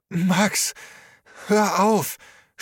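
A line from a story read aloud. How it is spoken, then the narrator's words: Stammering. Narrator (German): stammelte Trisha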